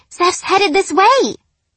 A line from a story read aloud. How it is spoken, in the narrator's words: Delia squealed